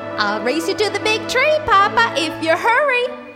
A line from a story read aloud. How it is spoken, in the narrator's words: squealed Baby Bear